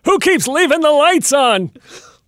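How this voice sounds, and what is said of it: Exaggerated old-fashioned dad voice. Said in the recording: “That's my dad voice. You like my dad voice? ... you sound like that almost went into a Jimmy Stewart sort of space”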